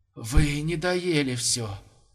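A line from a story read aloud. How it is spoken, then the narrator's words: Hoarse mutter. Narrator (Russian): хрипло пробормотал лошадиный суп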